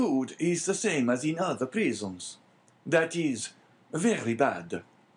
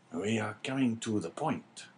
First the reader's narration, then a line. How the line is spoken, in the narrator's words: whispered the governor